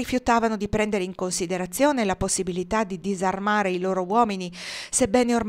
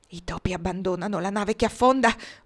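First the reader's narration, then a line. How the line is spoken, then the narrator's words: Dazed whisper, commissioner. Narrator (Italian): bisbigliò il commissario con lo sguardo perso nel vuoto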